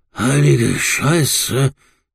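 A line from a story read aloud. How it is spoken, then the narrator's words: Gasping. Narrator (German): japste er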